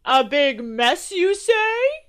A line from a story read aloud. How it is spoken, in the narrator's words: Santa chuckled